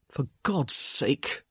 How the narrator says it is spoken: he grunted

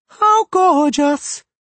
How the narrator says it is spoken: she cried

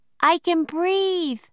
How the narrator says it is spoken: Annie yelled

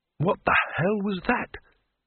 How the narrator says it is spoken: The wizard whispered

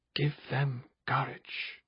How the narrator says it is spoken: he whispered

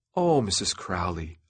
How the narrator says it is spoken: I answered in my nicest voice

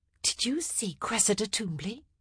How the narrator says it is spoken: Eloise whispered in her ear

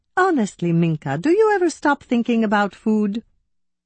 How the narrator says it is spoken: I laughed

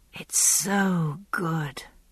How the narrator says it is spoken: I said dreamily

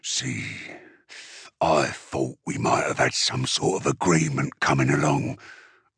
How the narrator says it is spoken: Uftak growled

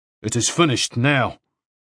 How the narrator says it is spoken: he said angrily

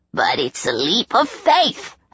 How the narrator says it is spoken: Haket croaked

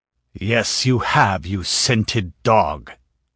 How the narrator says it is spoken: snarled the Cimmerian

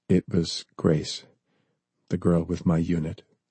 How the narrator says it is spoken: John said softly

